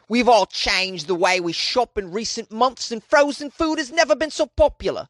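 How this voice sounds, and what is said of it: Deliberately poor put-on British accent. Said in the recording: “Was that the worst British accent in history? Probably. I just thought I'd give it a shot, though.”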